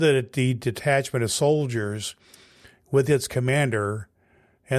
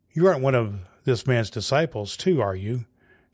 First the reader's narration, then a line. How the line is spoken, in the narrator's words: she asked Peter